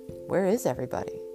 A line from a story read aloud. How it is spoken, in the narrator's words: JoBeth asked in a hushed voice